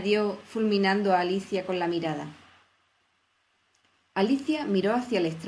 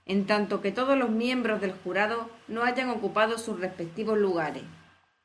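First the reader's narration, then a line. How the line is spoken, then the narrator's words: Grave, stern king. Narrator (Spanish): dijo el rey con una voz grave y severa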